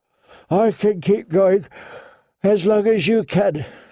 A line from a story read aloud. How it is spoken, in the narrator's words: she yawned